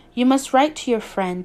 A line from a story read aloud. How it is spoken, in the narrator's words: said he